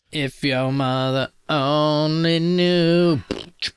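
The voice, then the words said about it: Imitates another person's singing, poorly. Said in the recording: “That's a bad impression”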